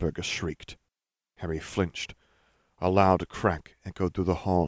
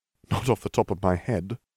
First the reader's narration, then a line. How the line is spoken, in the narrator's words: Harry laughed